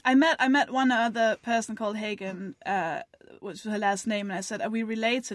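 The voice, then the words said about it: Danish accent. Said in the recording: “You have a bewitching accent. ... I'm from Denmark.”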